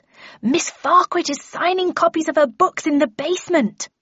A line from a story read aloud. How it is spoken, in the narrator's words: took a deep breath and yelled